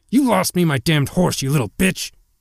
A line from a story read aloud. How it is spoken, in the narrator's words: He snarled